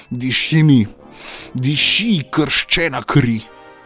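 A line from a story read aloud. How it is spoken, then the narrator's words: Shouting. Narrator (Slovenian): je kričal in dejal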